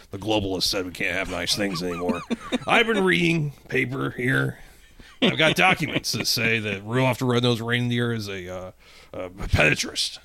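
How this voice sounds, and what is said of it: Imitates another person's voice. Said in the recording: “my Alex Jones impression is serviceable... doing my Alex Joe impression”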